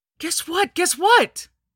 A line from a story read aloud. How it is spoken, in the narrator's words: yelled